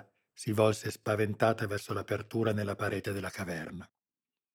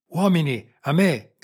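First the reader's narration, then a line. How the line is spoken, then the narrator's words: Shouted, colonel. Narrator (Italian): gridò il colonnello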